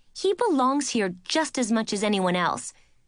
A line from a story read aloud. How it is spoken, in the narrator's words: said angrily